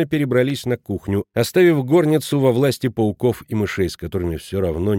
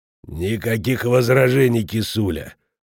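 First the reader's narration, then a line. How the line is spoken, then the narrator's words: Hoarse voice. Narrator (Russian): послышался хриплый голос Шмидта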